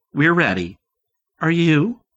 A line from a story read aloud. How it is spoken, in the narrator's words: said brightly